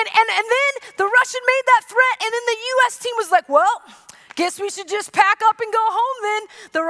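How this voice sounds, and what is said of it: Usual voice. Nothing is said of it.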